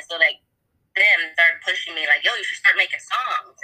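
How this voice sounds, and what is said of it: Slight accent. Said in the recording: “I heard you have a little accent there”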